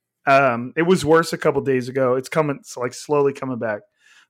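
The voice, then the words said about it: Strained, fading voice. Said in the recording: “I think you guys can probably hear it right now. I'm losing my voice.”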